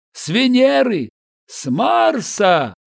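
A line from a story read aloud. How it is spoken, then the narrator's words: Shouted reply. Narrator (Russian): крикнул в ответ Крымов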